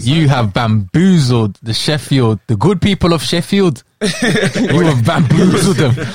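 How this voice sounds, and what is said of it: Put-on Sheffield accent. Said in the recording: “Was that the Sheffield accent?”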